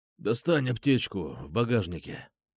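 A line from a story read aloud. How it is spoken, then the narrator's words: Hoarse rasp. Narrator (Russian): прохрипел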